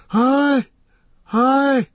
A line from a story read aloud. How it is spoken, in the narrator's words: wailed Legolas